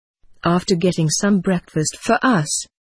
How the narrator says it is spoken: I sighed

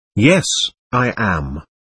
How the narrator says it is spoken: I answered timidly

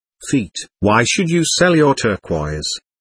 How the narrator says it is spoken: I asked Yongdan

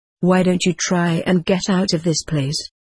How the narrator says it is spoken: I asked her

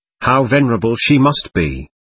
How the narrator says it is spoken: I exclaimed

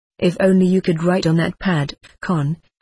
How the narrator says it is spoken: I said

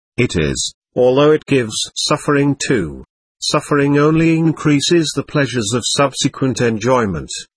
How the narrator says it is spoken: observed Kshukaru with a merry laugh

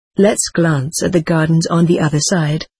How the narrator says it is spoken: said H

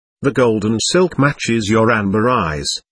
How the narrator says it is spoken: Akin said softly

